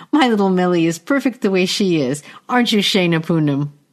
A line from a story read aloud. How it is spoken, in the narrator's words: Melidia giggles